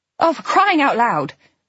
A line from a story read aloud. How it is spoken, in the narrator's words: I snapped